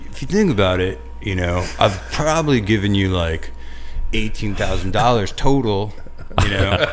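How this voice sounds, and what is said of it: Mocking impersonation of his own voice. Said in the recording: “impersonated yourself... The way a girlfriend would impersonate you... That was a good impersonation of yourself.”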